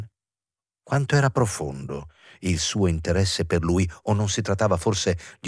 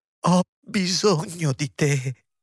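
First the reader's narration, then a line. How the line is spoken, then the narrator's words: Sobbing. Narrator (Italian): singhiozzò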